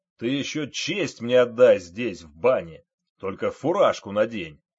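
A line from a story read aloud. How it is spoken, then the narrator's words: General barking from above. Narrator (Russian): гаркнул сверху генерал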